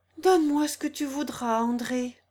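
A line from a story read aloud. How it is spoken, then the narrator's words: Heartrending voice. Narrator (French): répondit le chanoine d'une voix déchirante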